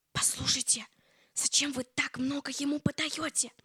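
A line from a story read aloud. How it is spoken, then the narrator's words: Whispered question. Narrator (Russian): спросил шепотом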